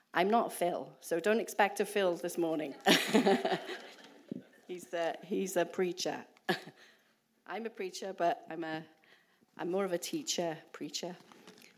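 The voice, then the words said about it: Welsh accent. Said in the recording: “we're from the UK. We're from Wales. So I don't know if you can understand my accent.”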